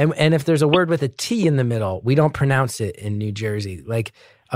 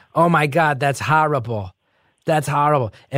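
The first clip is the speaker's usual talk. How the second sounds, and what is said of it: Exaggerated New Jersey accent. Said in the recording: “The real Jersey accent, which you hear sometimes in the show, is when I start going like”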